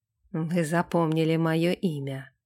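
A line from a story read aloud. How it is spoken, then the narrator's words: Snort. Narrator (Russian): хмыкнул Сэм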